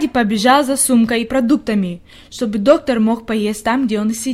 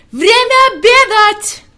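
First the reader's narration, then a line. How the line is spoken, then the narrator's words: Shouting at full force. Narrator (Russian): Он изо всех сил закричал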